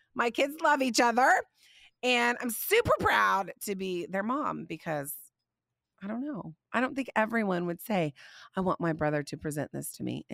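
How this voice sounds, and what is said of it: Slightly scratchy voice. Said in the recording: “My voice is still a little scratchy ... bear with me on my scratchy voice ... I just don't sound 100% yet”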